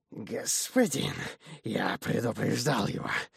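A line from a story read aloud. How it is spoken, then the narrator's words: Obsequious demonic hiss. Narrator (Russian): подобострастное шипение беса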